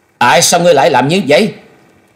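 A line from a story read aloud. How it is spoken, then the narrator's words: Glaring loud shout. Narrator (Vietnamese): Thôi Dân y trừng trừng quát lớn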